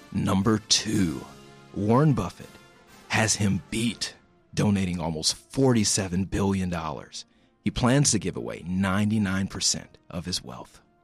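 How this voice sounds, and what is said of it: Exaggerated radio announcer voice. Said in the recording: “I think I'm doing the good radio voice ... The voice is getting more extreme every...”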